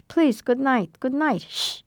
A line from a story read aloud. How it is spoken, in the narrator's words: I called out in Yiddish